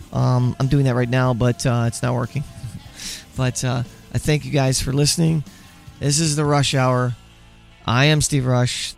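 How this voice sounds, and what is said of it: Hoarse, nearly lost voice. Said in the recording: “My voice is gone, and I apologize for that.”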